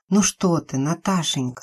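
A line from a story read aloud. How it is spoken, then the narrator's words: Whispered. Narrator (Russian): шептала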